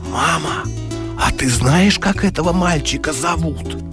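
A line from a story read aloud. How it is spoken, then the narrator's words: Whispered. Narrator (Russian): шепотом говорит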